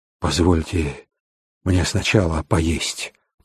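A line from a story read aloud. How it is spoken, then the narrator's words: Hoarse pleading. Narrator (Russian): попросил Хоу похрипшим голосом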